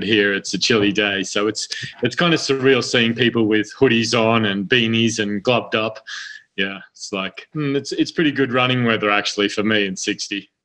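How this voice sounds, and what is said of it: Australian accent. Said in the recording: “with your accent, you said you're from Australia”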